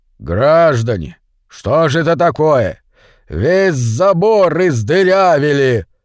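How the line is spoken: Fearsome deep bass. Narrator (Russian): сказал он страшным басом

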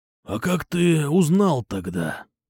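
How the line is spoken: Hoarse rasp. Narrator (Russian): прохрипел он

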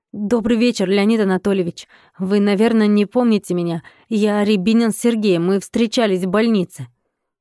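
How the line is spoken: Deep breath, hurried speech. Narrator (Russian): Глубоко вдохнув воздух, Сергей торопливо сказал

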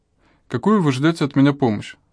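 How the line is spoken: Calm question. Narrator (Russian): спросил спокойно

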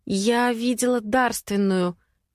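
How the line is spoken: Uncertain speech. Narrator (Russian): неуверенно проговорив

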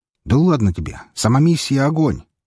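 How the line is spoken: Shout. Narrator (Russian): крикнул его друг

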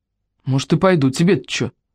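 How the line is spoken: Gruff mutter. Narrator (Russian): буркнула Лусева

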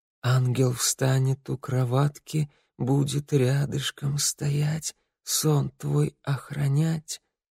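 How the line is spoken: Sad halting whisper. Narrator (Russian): мама, печально улыбнувшись, сбивчиво зашептала

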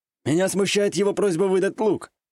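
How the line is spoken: Wry snort. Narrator (Russian): хмыкнул тот самый Кимура

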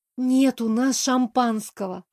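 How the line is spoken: Resigned sigh. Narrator (Russian): обреченно вздохнула я

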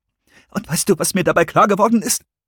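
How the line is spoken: Trembling voice. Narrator (German): sagte Christopher mit bebender Stimme

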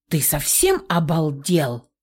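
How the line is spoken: Furious hiss. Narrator (Russian): разъяренно прошипела

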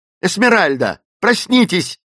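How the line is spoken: Shouting. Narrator (Russian): закричала

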